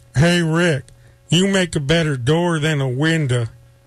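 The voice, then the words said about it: Impression of Rick Harrison's father. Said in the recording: “I actually do an impression of your father, the old man ... That's a good impression.”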